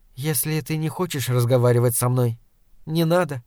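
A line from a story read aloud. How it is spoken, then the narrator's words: Calm. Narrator (Russian): спокойно сказала она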